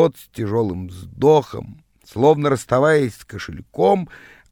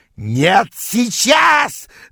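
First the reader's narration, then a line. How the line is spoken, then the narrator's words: Yelling. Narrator (Russian): завопил он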